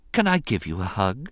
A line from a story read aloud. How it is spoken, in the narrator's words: she asked him softly